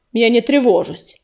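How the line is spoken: Cold reply. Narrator (Russian): холодно ответил Ураган

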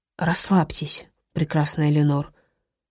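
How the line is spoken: Whispered. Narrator (Russian): шепнул Дамиан

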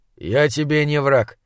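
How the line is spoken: Calm. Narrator (Russian): спокойно сказал Кейн

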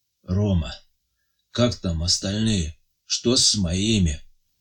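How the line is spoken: Weak voice. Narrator (Russian): спрашивает Андрей Матвеевич слабым голосом

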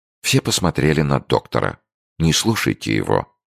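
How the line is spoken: Calm usual tone. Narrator (Russian): проговорил Фергюсон своим обычным спокойным тоном

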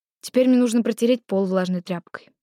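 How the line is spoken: Sighing. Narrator (Russian): вздохнула я

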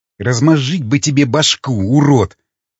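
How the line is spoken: Hissed. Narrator (Russian): прошипел Константин

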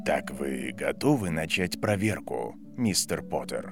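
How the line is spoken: Calm question. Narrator (Russian): спокойно спросил профессор

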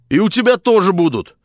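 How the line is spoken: Cheerful. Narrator (Russian): весело сказал Максим

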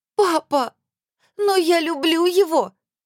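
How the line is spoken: Sobbing. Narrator (Russian): Рыдающая Мильта

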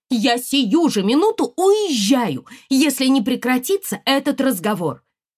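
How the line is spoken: Shouting. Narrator (Russian): она закричала

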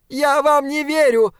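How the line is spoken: Screaming machine. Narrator (Russian): завопила машина

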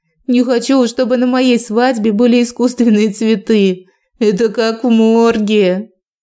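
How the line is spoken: Giggling. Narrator (Russian): Я хихикнула

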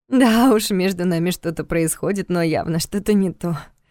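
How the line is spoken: Sighing. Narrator (Russian): вздохнула Диана

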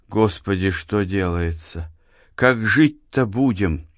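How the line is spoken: Quiet. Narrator (Russian): тихо проговорила Анна

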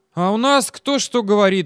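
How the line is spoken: Sighing. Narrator (Russian): вздохнул гаишник

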